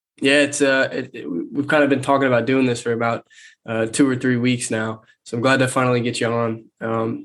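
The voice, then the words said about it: Stuffy, nasal voice. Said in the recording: “I sound a little stuffy, I'm getting over a cold, so I might sound a little nasally”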